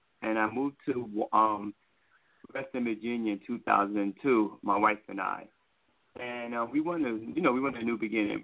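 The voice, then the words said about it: New York accent. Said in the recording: “I'm originally from New York City, guys. If you can't hear the accent, I'm from New York.”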